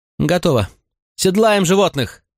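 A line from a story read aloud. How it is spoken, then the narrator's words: Shout. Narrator (Russian): крикнула Аня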